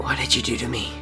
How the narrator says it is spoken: Crow rasped

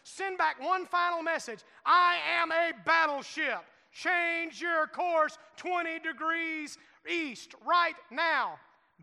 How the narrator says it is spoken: He shouted

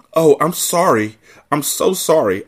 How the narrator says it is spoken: exclaimed

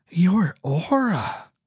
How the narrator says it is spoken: she breathed, her voice shaking with astonishment

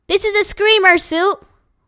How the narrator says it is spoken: Luca shouted into his ear

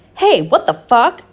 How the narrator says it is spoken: Vampire shouted angrily

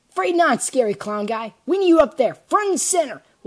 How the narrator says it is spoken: Lancer exclaimed

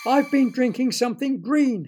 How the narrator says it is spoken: yelled

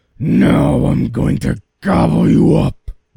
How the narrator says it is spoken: roared the troll

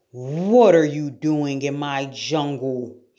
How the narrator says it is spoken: he roared

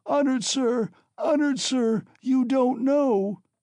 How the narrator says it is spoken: screamed Katerina Ivanovna

